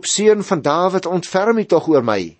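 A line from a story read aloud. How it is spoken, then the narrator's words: Crying out ever louder. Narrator (Afrikaans): hy het al hoe harder uitgeroep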